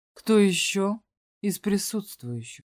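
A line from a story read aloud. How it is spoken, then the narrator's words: Slow speech. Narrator (Russian): медленно проговорил Элидат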